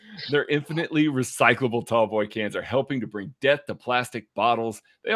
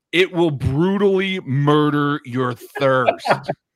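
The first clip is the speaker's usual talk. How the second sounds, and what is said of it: Imitates another person's voice. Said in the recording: “put on my good Kent voice”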